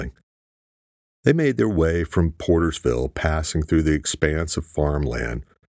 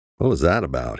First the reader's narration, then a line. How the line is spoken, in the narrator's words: he asked